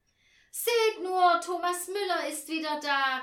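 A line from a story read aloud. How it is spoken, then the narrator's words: Called out. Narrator (German): rief sie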